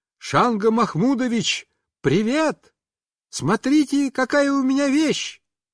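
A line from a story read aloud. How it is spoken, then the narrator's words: Loud shout. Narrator (Russian): я громко закричал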